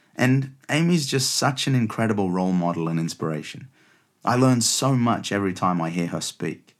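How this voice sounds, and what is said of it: Australian accent. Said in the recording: “you can probably tell by my accent that I was born and raised in Australia”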